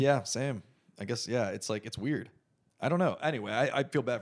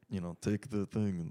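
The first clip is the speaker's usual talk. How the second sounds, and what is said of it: Put-on Russian accent. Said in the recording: “weird Russian trainers ... that's my accent.”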